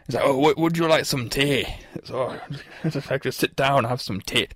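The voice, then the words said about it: Scottish accent, Shrek-style impression. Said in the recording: “my Scottish impression. It's not really a Shrek impression.”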